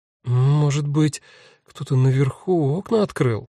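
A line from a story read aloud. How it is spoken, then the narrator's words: Uncertain. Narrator (Russian): неуверенно говорит Нина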